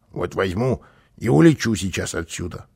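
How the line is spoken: Grumbling. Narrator (Russian): проворчал он

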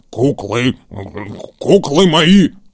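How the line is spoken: Grumbled. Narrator (Russian): проворчал он

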